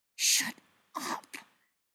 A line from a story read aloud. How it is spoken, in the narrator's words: Spencer hisses